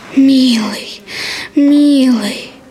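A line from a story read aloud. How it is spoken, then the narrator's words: Whispering. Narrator (Russian): шептал Сашка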